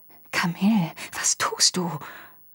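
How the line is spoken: Murmured. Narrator (German): raunte zu

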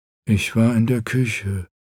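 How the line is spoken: Toneless. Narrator (German): sagte Gret tonlos

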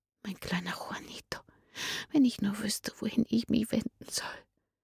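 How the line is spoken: Tearful whisper. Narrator (German): flüsterte sie unter Tränen

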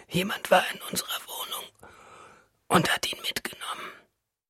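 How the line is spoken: Weak female voice. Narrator (German): sagt sie schwach

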